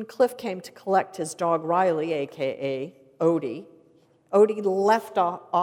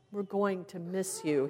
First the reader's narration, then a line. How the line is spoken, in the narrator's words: he said tearfully